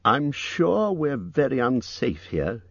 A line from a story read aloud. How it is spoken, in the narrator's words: he said